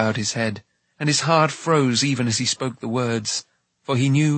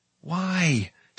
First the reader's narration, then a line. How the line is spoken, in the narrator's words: Taran whispered